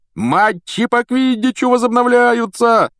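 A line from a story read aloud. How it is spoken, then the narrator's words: Yelling. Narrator (Russian): вопил Вуд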